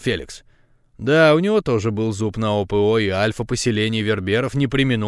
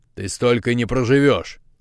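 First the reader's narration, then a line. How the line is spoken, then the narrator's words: Growl. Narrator (Russian): рыкнул Феликс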